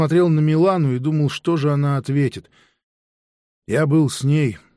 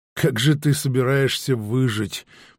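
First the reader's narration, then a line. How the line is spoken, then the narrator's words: Mutter. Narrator (Russian): пробормотала Мар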